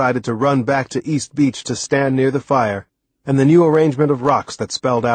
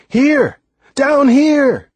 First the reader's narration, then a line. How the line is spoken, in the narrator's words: I yelled toward the sky